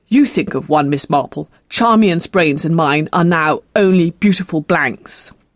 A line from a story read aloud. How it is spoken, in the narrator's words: Edward said crossly